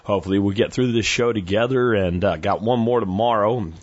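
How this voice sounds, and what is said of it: Strained, recovering voice. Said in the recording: “as you can hear, my voice is not 100% back, but it is better than it's been ... full vocal recovery”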